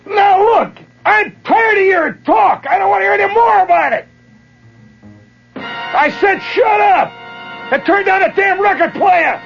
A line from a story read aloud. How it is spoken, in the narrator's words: yelling, and he says